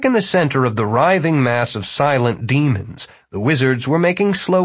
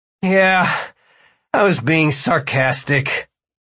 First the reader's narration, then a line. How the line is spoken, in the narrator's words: Martin groaned